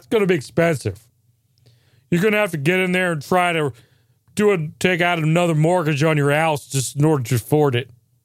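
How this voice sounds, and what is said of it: Random hillbilly character voice. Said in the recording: “I'm just doing a random voice. ... It's like Hillbilly Bill.”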